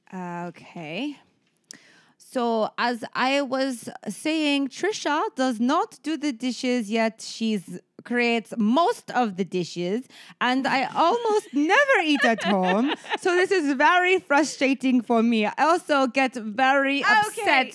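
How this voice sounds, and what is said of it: Convincing put-on French accent. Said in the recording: “It's really all about the French accent anyway ... Your accent is surprisingly fantastic.”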